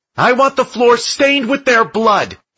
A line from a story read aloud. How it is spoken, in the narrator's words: Andy yelled to her crew above the chaos